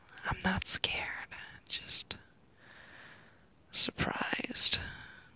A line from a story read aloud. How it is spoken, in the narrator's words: I whisper